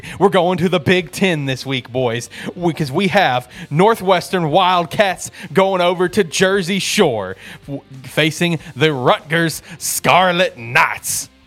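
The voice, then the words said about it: Preacher-style delivery. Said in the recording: “You sounded like a black preacher there for a second.”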